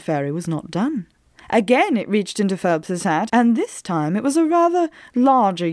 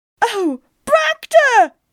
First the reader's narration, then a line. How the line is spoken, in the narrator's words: cried Miss Mage